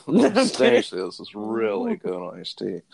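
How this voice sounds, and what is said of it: Imitates another person's voice. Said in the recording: “That's your best impression.”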